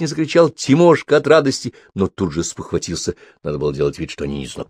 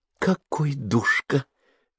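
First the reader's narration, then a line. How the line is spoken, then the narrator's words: Breathless exhale. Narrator (Russian): выдохнула Зиночка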